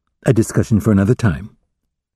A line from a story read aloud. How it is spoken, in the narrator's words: She murmured to Will